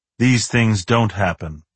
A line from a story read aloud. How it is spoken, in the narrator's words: Harding said solemnly